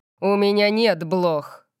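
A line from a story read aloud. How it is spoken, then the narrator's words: Growl. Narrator (Russian): прорычал он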